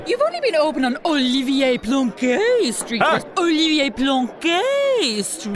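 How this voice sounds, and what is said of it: Put-on affected accent. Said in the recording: “will you stop talking that stupid accent just because we're in an eating house?”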